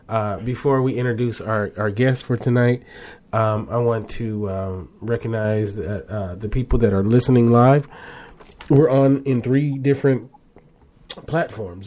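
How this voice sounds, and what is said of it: Slightly unwell, recovering voice. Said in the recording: “I'm feeling a lot better. I'm not 100%, but I'm getting closer. ... You guys might be able to hear it in my voice”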